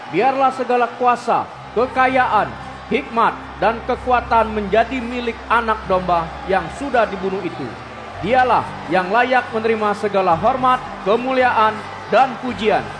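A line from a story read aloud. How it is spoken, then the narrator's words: Loud group singing. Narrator (Indonesian): Mereka bernyanyi dengan suara keras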